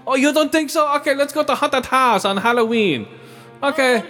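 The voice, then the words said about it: Put-on foreign accent. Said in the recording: “why you gotta do the accent?”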